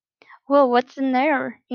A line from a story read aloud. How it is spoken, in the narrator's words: laughed